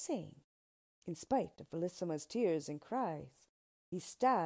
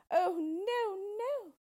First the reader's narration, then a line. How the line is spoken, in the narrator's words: she cried